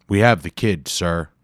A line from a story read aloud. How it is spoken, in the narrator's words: he said loudly